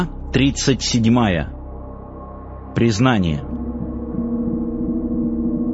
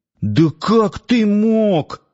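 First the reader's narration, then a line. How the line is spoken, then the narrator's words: Exclaiming, barely restrained anger. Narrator (Russian): воскликнул он, едва сдерживаясь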